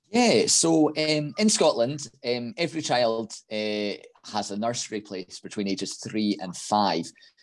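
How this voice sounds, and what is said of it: Scottish accent. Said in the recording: “we love the Scottish accent over here”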